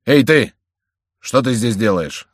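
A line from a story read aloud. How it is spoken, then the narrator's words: Plain. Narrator (Russian): спросил Леваро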